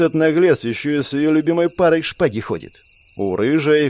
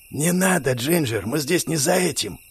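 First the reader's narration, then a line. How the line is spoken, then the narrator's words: Hoarse warning whisper. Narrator (Russian): Хриплым шепотом предостерегла Барбара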